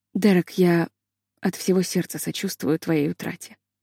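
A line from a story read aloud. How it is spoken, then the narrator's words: Softly said. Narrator (Russian): тихо вымолвила она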